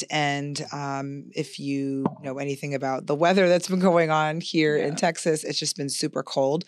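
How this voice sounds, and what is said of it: Strained, raspy voice. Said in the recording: “my voice is fighting for its life... Fighting a cold, fighting a raspy voice”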